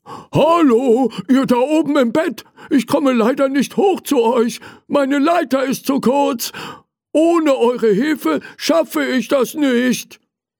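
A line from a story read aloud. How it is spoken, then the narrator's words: Calling out. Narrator (German): Er rief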